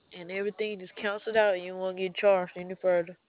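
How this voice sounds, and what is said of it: Alabama Southern US accent. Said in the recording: “I'm from Alabama. ... I thought I recognized that accent.”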